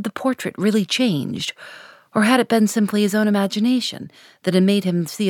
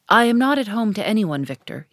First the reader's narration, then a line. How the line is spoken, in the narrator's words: he said with a sigh